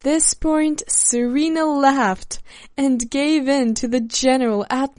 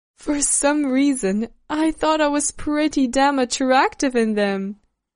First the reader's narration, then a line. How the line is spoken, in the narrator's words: With a laugh and a little embarrassment, answered Serena